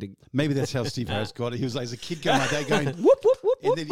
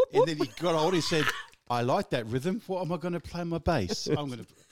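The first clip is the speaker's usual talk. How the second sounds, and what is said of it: Poor imitation of an English accent. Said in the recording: “That's not his accent. No. So sorry about that. ... Sorry for all you English people.”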